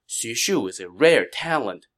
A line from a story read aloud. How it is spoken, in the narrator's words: Sun Qian said